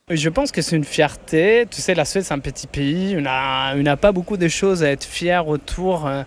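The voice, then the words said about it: Swedish accent in French. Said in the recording (French): “Avec son plus bel accent”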